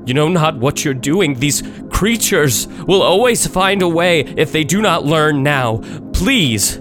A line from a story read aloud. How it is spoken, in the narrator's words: begging, pleading